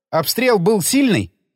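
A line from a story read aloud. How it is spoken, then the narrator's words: Plain. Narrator (Russian): спросил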